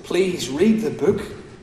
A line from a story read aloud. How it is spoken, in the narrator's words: Christian begged her